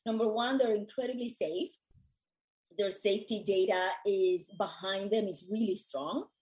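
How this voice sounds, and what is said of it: Voice giving out. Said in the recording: “my voice is going”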